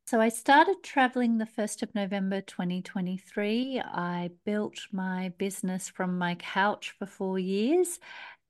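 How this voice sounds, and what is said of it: Australian accent. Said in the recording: “I'm an Aussie, obviously, you can hear by my accent”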